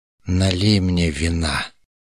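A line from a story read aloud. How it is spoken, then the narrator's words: Low, pleasant request. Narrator (Russian): Даже не приказал, а попросил он красивым низким голосом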